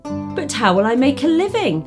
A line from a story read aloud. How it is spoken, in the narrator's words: exclaimed Ahmed